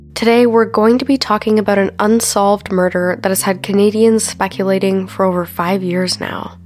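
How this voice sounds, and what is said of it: Sick, congested-sounding voice. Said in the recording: “I sound sick, ... it's because I am. ... I'm just getting over some sort of cold or flu”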